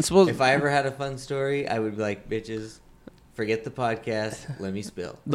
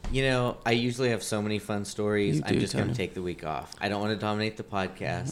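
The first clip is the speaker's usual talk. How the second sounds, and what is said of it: Sarcastic delivery. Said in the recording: “That was sarcasm,”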